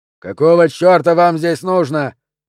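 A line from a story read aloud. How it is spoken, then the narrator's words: Very loud bark. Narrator (Russian): рявкнул Дженнингс так громко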